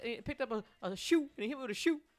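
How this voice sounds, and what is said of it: Panicked character voice, possibly Cajun. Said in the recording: “Is that a Cajun accent? ... Down here on the bayou ... I just slipped into some weird. That was my new character I'm working on. It's called 911 Victim.”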